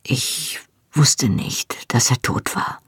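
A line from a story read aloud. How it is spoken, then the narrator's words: Quiet continuation. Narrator (German): fuhr leise fort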